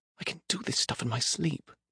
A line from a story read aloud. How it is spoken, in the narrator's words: Priya whispered